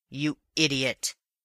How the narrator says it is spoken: he snarled

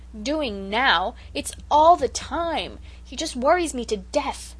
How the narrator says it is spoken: returned Cecily angrily

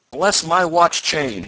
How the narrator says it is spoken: he suddenly cried

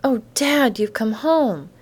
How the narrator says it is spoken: the girl breathed, then joyously

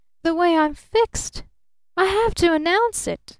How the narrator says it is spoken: gasped

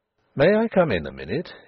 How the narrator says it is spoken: he asked, in a purely business tone

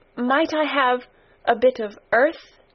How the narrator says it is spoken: quavered Mary

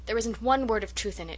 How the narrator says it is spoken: she declared hotly

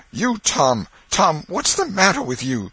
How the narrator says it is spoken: she gasped out

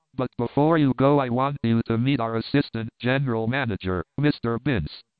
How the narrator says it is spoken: exclaimed Compton

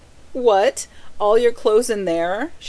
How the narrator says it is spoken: she cried

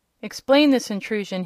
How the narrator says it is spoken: he cried

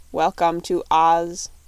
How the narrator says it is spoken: said the copper man in a monotonous voice

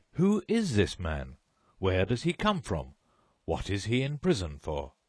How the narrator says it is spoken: exclaimed the judge

